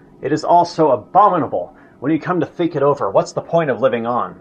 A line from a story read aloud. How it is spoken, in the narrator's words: exclaimed Hitler